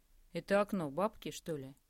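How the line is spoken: Plain. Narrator (Russian): спросил Андрей

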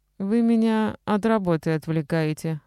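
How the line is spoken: Dejected, resigned tone. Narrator (Russian): сказала она очень понурым, обреченным тоном, без тени раздражения

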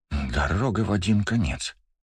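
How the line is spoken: Mutter. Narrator (Russian): пробормотал Джекс

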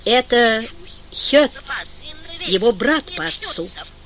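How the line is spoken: Quiet reply. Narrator (Russian): так же тихо ответил бог моря и кораблей

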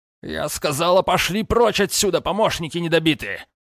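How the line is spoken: Barked. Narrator (Russian): рявкнула

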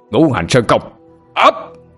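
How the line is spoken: All-out shout. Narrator (Vietnamese): Lần này Tiến chơi hết sức, hét lên

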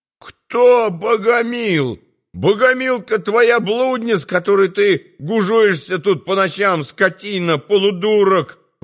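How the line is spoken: Howling. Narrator (Russian): взвыл повар

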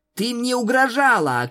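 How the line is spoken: Shouted. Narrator (Russian): крикнула Твайлайт

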